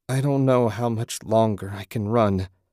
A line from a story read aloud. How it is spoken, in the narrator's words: Susan groaned